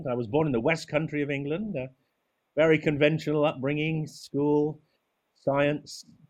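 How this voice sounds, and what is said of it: English accent. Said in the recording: “I'm an Englishman, as you can gather from my accent.”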